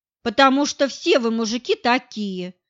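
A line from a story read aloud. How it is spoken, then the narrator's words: Angry snap. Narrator (Russian): зло бросила она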